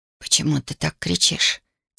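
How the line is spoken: Quiet question. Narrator (Russian): тихо спросила Даша

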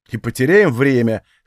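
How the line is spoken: Snorting. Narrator (Russian): хмыкнул я

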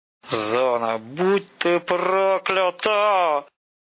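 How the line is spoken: Disgusted, through gritted teeth. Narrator (Russian): С отвращением сквозь зубы сказал сталкер

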